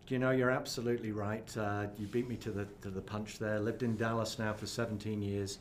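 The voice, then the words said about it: British accent from Cornwall. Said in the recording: “clearly you can tell, originally from the United Kingdom ... Originally the far southwest of Cornwall”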